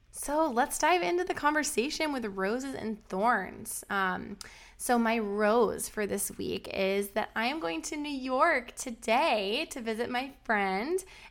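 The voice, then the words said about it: Slightly weird voice from a cold. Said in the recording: “I am getting over a bit of a cold, so if my voice sounds a little weird”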